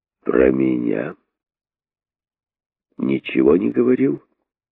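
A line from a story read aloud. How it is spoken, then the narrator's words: Gloomy question. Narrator (Russian): спросил король, мрачно выслушав рассказ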